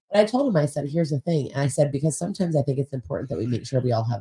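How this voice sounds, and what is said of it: Usual voice. Nothing is said of it.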